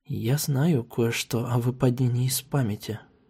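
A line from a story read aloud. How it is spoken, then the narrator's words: Detached whisper. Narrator (Russian): прошептала я отстраненно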